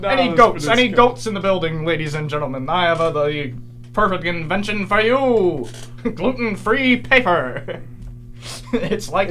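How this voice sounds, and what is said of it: Sleazy salesman voice. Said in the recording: “sleazy salesman”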